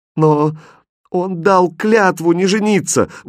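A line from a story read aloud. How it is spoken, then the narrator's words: Exclaimed. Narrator (Russian): воскликнула королева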